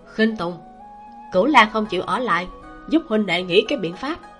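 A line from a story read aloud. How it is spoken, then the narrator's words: Quiet, urgent. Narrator (Vietnamese): Lý Đức Kiển nhỏ giọng nói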